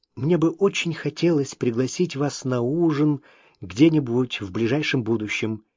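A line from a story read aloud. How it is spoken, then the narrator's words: Quiet. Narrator (Russian): тихо добавил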